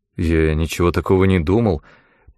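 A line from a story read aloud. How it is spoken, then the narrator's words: Defensive mumble. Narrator (Russian): промямлил в свое оправдание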